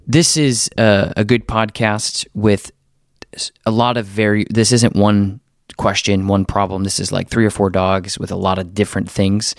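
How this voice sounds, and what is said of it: Deeper voice from a cold. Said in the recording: “crazy head cold ... my voice is a little deeper than normal”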